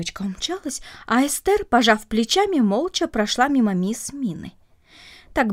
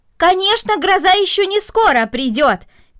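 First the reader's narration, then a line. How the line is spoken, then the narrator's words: Shout. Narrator (Russian): крикнула мисс Мина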